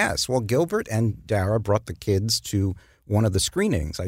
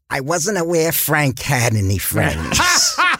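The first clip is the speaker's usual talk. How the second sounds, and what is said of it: Imitates another person's voice. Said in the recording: “That's not a bad impression.”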